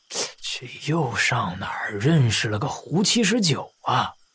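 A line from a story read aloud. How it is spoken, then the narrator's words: Muttering. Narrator (Chinese): 老白嘀咕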